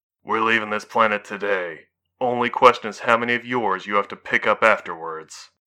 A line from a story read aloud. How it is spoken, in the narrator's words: the Javelin pilot said evenly